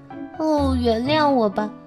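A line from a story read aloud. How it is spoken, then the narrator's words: Resigned apologetic sigh. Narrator (Chinese): 仙女无可奈何地叹了口气，抱歉地说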